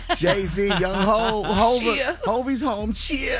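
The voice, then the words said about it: Imitates another person's voice. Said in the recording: “you're good at that, bro. ... my best impression.”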